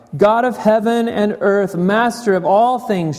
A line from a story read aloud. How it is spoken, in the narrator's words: shouted Justin